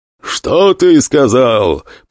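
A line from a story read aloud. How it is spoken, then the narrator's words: Roar of huge beast. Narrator (Russian): проревел ближний ко мне Гар, здоровенная белая зверюга под 2,5 метра ростом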